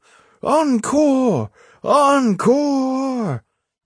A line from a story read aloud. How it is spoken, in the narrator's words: From all around and everywhere the shout went up